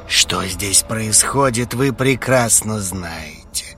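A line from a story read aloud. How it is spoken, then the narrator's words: Sorcerer growling. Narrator (Russian): прорычал колдун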